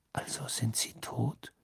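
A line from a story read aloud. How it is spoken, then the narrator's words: Said quietly. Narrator (German): sagte Harry leise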